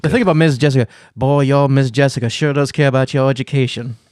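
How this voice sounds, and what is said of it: Put-on Southern accent, weak attempt. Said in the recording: “You're doing your southern accent. ... No, I can't even do it.”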